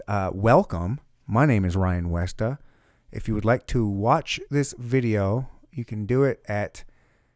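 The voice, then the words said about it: Hoarse, worn-out voice. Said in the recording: “I'm losing my voice. That's how much we talked.”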